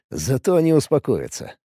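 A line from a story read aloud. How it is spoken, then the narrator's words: Snort. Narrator (Russian): хмыкнул Алекс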